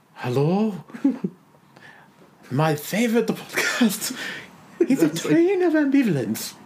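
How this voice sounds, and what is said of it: Unplaceable accent, wheezy Israeli-sounding voice. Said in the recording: “I can't even place that accent. ... You sound like an asthmatic Israeli.”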